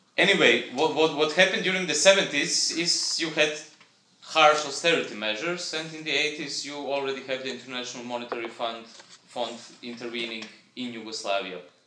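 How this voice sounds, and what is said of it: Speaker with a bad accent. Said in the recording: “I'm speaking this bad accent.”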